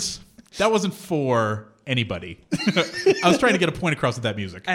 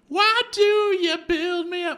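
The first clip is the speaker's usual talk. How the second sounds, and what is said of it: Weird sung impression of a singer. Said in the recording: “my weird Frankie Valli impression”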